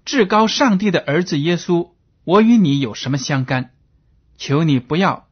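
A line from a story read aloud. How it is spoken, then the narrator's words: Loud crying out. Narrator (Chinese): 他……大声喊叫，说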